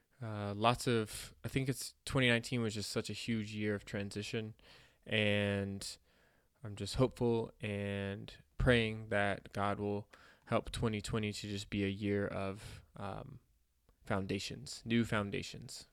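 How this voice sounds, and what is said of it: Slightly congested, sick-sounding voice. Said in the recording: “have been a little sick. You can probably hear it in my voice a little bit. Pre-apologize for the sniffles.”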